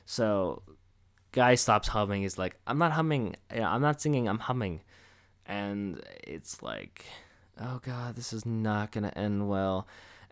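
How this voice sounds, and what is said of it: Hoarse, strained, tired voice. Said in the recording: “I'm tired and my throat is shredded from doing that voice”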